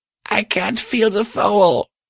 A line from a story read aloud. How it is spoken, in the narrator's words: Patch erupted, breaking into another round of sobs